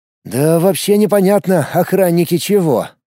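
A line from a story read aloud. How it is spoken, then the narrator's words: Sighing. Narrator (Russian): вздохнул Влад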